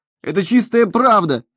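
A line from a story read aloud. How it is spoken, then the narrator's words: Shouting over noisy hall. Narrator (Russian): кричал он, перекрывая шум в зале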